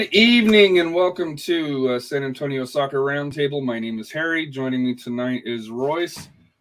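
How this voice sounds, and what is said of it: Voice a little off. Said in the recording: “my voice is a little bit uh, off, dealing with some allergy issues”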